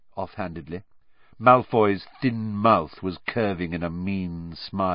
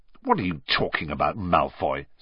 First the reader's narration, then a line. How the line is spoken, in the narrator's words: said Ron, roughly